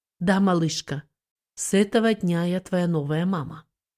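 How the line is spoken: Soft, tender, uncertain motherly voice. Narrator (Russian): Грубое лицо Ханзин осветилось нежной материнской улыбкой, и она ответила тихим и неуверенным голосом

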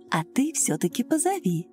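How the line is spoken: Soft motherly woman's voice. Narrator (Russian): Женщина мягко так по-матерински повторила

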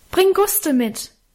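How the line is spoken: Calling after into darkness. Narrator (German): rief in die Dunkelheit nach

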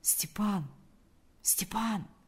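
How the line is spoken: Quiet call. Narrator (Russian): позвал он тихо

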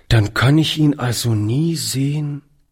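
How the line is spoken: Quiet. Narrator (German): sagte er leise

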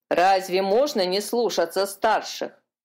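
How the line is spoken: Grumbling gull. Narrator (Russian): проворчала серая чайка

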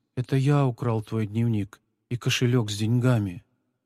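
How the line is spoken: Quiet. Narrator (Russian): Павлик тихо произнес

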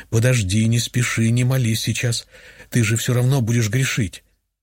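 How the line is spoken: Whispering. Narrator (Russian): голос продолжал нашептывать

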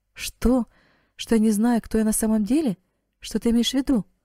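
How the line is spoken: Astonished exclamation. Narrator (Russian): воскликнула девушка, еще более пораженная, чем раньше

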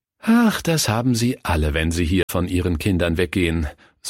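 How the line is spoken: Sighing. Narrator (German): seufzte die Diakonisse

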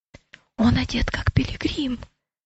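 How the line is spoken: Whispered. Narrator (Russian): прошептал Матфей

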